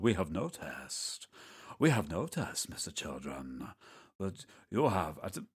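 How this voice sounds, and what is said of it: Mysterious stage magician voice. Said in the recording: “What accent is that? ... someone who quite fancies himself as a magician ... They talk sometimes in that sort of voice.”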